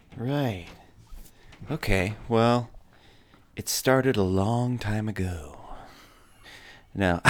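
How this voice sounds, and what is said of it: Soft, hushed ASMR-style voice. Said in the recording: “ASMR voice.”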